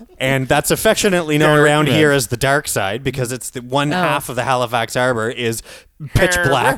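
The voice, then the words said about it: Noticeable regional accent. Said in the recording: “your accent is killing me today”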